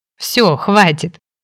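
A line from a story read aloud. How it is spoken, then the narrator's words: Laughing. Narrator (Russian): рассмеялась я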